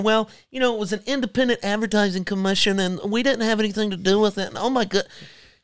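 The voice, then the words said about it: Mock corporate CEO voice. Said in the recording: “his CEO impersonation ... my corporate woke CEO impersonation”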